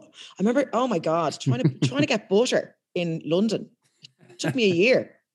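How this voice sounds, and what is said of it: Thick Irish accent. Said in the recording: “I've got quite a thick Irish accent”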